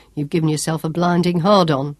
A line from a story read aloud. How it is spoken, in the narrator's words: chuckled